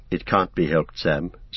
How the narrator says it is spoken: said Frodo sadly

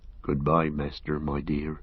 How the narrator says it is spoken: he murmured

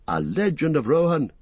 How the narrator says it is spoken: cried Legolas

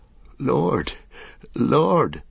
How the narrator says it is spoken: began Merry brokenly

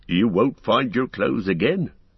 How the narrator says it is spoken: said Tom, laughing

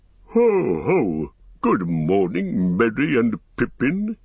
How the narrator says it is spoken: boomed

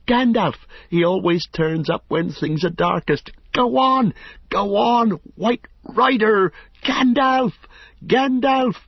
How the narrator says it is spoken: he shouted wildly, like an onlooker at a great race urging on a runner who is far beyond encouragement

